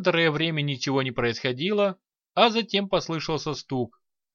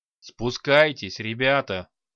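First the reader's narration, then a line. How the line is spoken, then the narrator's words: Orc growling. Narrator (Russian): прорычал орк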